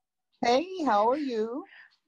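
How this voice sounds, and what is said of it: Put-on formal work voice. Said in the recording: “you're giving me the fake work voice”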